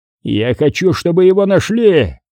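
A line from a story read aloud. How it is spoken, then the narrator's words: Angry growl. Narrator (Russian): прорычал босс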